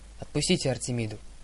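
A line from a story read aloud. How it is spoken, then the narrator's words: Stern demand. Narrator (Russian): суровым тоном потребовала Зоя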